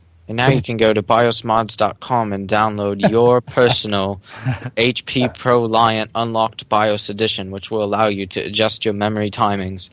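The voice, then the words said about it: Put-on British accent, announcer-like. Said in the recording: “you went British there ... nice accent ... almost like the Skype call testing service”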